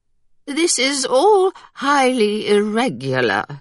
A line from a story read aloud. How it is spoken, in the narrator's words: Lady Carew announced in a loud, quivering voice